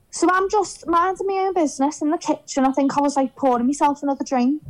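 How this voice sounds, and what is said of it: Strong Scouse accent. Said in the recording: “is as Scouse as you can get ... obviously this person has heard my accent ... wait, are you Scouse?”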